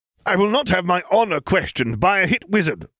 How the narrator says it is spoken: Sato snapped

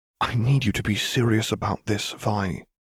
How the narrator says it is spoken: Caitlin said quietly

